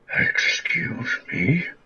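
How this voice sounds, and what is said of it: Creepy put-on voice. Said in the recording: “That is a very creepy voice that you have.”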